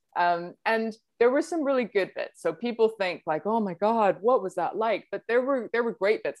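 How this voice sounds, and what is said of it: Mixed accent with Dutch traces. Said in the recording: “I'm originally from Holland, in case you couldn't tell by my confused accent.”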